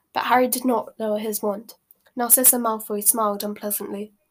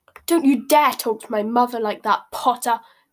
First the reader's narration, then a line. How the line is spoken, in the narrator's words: Malfoy snarled